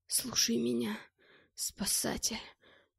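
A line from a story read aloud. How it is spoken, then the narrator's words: Whispered. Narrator (Russian): зашептал он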